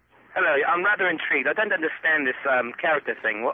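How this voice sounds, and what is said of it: Fake British accent. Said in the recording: “that phony British accent ... it's a fake one”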